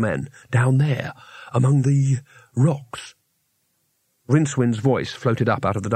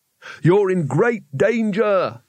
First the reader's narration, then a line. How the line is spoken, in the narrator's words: shouted Rincewind